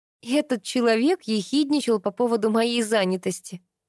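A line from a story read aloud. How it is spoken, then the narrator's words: Laughing. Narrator (Russian): засмеялась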